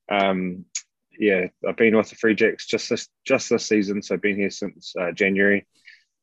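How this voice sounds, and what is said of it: New Zealand accent. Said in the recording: “I'm a New Zealander, which would be obvious in terms of my accent.”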